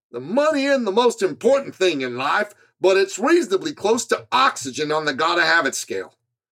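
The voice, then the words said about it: Imitated Georgia Southern accent. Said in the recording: “I'm sorry for butchering his fabulous Georgia accent, but that's how he talked”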